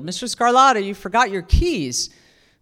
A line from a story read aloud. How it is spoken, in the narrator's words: yelled